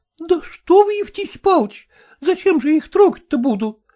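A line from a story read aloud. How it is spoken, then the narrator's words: Frightened. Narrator (Russian): испуганно произнесла она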